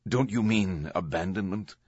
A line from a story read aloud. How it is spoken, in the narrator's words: His voice hardened